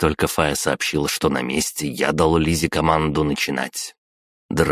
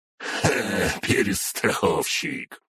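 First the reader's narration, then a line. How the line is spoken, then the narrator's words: Female chuckle. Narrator (Russian): хохотнула она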